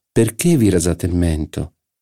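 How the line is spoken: Coaxing, caressing question. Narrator (Italian): gli chiese Jupien in tono carezzevole

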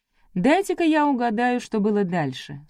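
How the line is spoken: Calm. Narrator (Russian): спокойно сказала Вероника

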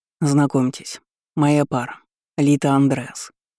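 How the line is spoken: Calm. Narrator (Russian): спокойно сказал Яхтер

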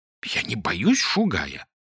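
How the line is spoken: Indignant whisper. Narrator (Russian): возмущенно прошептал Клочков

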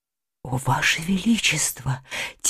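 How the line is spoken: Quiet. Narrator (Russian): тихо произнесла баронесса

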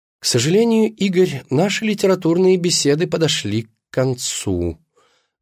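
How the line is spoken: Sighing. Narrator (Russian): вздохнула она

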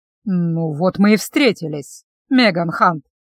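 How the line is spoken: Deliberately slow, booming voice. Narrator (Russian): подчеркнуто медленно проговорил он зычным голосом

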